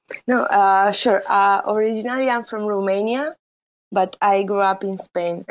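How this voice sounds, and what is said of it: Spanish accent. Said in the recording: “I guess you can tell by my accent. It's very Spanish.”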